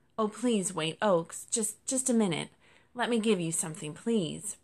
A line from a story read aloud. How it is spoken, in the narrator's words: Rosie pleaded